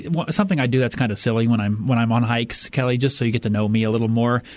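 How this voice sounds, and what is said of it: Usual voice. Nothing is said of it.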